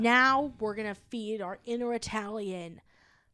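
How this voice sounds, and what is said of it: Usual voice. Nothing is said of it.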